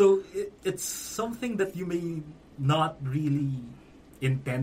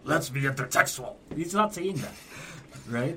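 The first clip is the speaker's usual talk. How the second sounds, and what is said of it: Vince McMahon impression. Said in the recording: “That's actually very good. ... It's probably the best Vince impression we've had on the podcast.”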